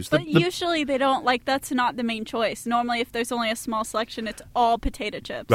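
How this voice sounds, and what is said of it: American accent. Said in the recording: “I'm detecting an accent. American or Canadian? ... American.”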